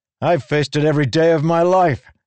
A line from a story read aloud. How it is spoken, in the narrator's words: Kaladin shouted